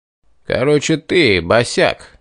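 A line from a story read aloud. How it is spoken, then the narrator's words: Menacing brute's voice. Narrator (Russian): грозно произнес бугай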